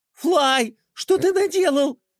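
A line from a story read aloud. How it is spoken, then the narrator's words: Shouting. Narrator (Russian): закричала Пинки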